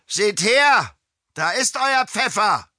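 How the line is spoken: Calling out. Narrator (German): Klaus rief

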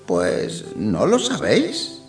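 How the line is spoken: Old man chuckling. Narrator (Spanish): se rió el viejo entre dientes

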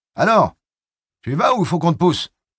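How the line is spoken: Foreman shouting. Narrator (French): cria la voix du contremaître

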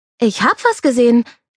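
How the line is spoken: Triumphant shout. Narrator (German): rief Joe im nächsten Moment triumphierend

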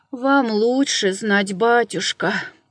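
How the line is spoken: Peasant woman sighing. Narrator (Russian): вздохнула баба

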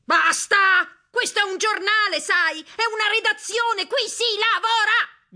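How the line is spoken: Shouting, growing ever louder. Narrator (Italian): gridò a volume sempre più alto

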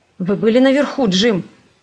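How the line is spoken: Anxious question. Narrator (Russian): спросил он встревоженным голосом

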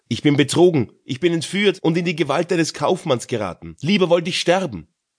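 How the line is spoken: Frightened cry. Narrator (German): rief sie erschrocken

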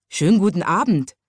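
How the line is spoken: Small watchman calling out. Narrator (German): rief der kleine Nachtwächter

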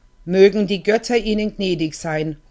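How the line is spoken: Calling out. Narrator (German): ruft sie

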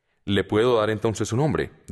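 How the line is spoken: Plain. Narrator (Spanish): dijo

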